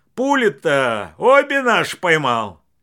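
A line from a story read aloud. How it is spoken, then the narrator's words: Forced cheerful shout. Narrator (Russian): Василий нарочито весело крикнул вслед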